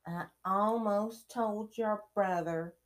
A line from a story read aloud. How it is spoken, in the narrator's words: Hermione snapped